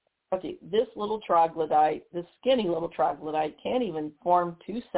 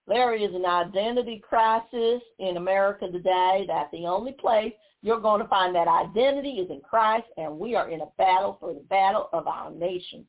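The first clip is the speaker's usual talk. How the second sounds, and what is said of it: Imitates another person's voice. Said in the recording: “I'm going to use her accent, I'm going to try and imitate her”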